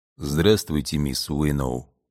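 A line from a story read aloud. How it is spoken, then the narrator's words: Low male voice. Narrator (Russian): низким голосом произнес мужчина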